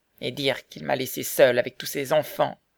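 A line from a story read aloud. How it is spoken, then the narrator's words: Moaning. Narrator (French): dit la veuve en gémissant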